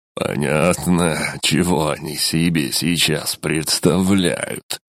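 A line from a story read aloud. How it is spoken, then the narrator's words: Chuckling. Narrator (Russian): хохотнул Килиэль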